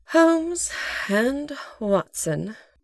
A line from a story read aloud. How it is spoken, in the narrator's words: Janine sighed